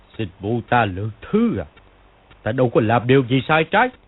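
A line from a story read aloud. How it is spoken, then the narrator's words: Scornful sneer. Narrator (Vietnamese): Công Tôn Chỉ cười khẩy, y nói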